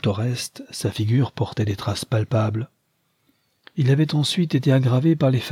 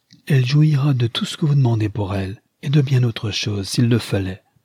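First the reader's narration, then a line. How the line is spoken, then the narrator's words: Impetuous exclamation. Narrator (French): s'écria-t-elle avec impétuosité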